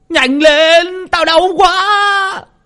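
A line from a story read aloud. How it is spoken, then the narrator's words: Howling in pain. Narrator (Vietnamese): Thằng Vạc bị tả tơi, nó gào lên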